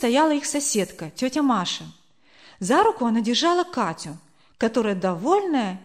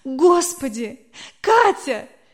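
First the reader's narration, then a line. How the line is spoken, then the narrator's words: Barely holding back sobs. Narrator (Russian): Еле сдерживая рыдания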